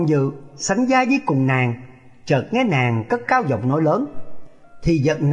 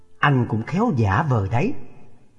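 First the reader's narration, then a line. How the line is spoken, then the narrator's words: Muttering with a secret laugh. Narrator (Vietnamese): Trung Linh cười thầm lẩm bẩm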